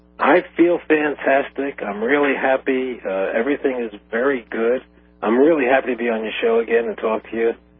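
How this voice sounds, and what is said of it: Throaty, slightly hoarse voice. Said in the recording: “I'm a little bit throaty in the voice today, a little bit hoarse”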